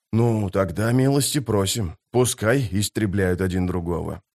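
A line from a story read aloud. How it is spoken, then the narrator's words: Grumbling historian. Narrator (Russian): проворчал историк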